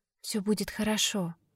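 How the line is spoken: Whispered. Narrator (Russian): шепнула Катя

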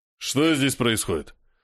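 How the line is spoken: Booming deep bass. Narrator (Russian): Гремит он мощным басом на всю лестничную площадку

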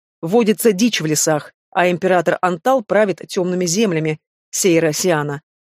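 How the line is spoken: Stern correction. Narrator (Russian): строго поправил лекарь

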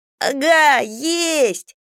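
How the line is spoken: Yelling. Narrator (Russian): заорал Хьюги

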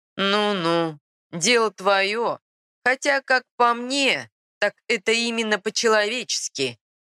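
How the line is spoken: Chuckling. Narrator (Russian): хохотнул Робин Гуд

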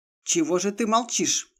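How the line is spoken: Angry question. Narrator (Russian): сердито поинтересовался Женек

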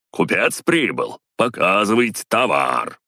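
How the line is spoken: Speech then loud laughter. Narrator (Russian): сказал он и захохотал

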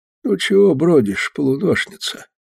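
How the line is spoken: Quiet question. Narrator (Russian): тихо спрашивал

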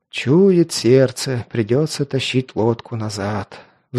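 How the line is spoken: Sighing. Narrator (Russian): вздохнул Туча

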